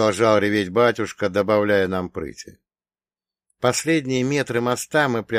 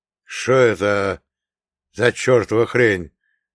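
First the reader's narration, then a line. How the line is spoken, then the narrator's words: Sudden exclamation. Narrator (Russian): неожиданно воскликнул Иван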